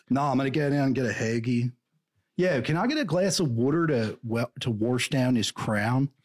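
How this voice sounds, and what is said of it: Put-on Philadelphia accent. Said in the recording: “Why do they talk like that? It's almost like a East Coast surfer. ... It's a weird accent in Philly. I can't really do it.”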